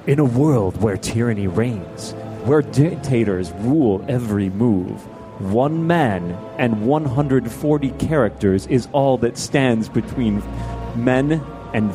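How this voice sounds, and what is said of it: Dramatic movie trailer announcer voice. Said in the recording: “In your best movie trailer voice”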